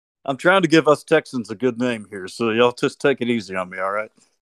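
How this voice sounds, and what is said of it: Texas accent. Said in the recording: “I love your voice ... Such a lovely Texas accent”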